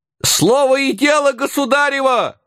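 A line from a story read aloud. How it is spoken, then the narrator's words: Yelling. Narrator (Russian): вопил дьяк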